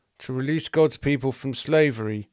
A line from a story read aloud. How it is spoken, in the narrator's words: muttered the Jews